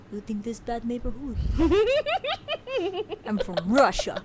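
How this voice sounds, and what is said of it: Bad put-on Russian accent. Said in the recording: “that was Chicago Russian ... I know, it was bad.”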